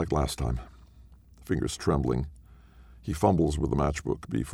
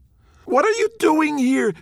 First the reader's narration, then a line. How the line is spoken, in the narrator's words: She screams